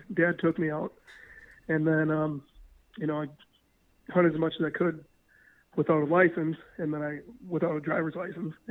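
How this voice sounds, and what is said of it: Hoarse voice from a cold. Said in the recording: “I got a pretty bad cold, to be honest with you, so my voice is a little hoarse”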